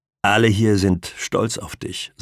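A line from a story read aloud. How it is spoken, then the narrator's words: Plain. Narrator (German): sagt der Pfleger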